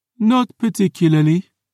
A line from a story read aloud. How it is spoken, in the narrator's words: the Marquis yawned